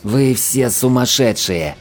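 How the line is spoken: Hissed. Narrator (Russian): прошипел Лабок

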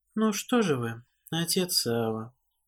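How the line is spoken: Dispassionate even voice. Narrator (Russian): Бесстрастным и ровным голосом

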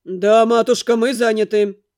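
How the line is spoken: Sharp. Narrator (Russian): резко сказал Дамиан

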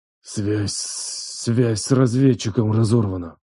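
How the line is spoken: Pained wheeze. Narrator (Russian): прохрипел, все еще держась за голову

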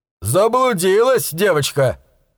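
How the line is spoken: Chuckling. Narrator (Russian): хохотнул он

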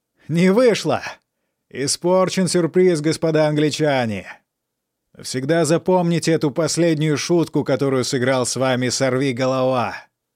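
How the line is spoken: Defiant mocking shout. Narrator (Russian): чувствуя, что все равно пропал, Жан крикнул насмешливо

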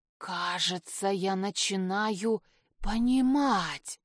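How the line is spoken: Hissing. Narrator (Russian): прошипел Херш

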